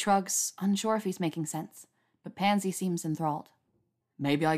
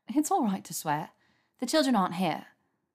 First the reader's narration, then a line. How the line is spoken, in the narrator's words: says with a light laugh